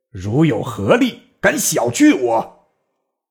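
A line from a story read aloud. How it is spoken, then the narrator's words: Angry. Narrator (Chinese): 坚怒曰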